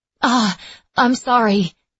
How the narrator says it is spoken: Etta gasped

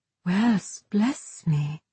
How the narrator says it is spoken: Safi breathed

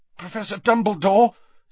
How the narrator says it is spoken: said Harry, his voice strained

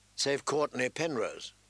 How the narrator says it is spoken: Catelyn murmured

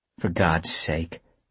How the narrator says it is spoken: muttering

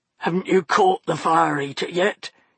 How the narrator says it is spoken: he croaked

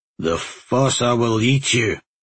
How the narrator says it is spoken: he growled at Aulan

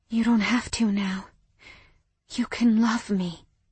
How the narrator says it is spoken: whispered

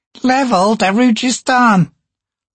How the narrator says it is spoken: Crone chirped brightly

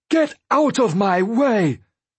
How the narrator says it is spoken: Dwalia shouted

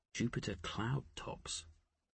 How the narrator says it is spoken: Poole murmured

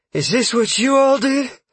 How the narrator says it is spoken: Freya asked while panting

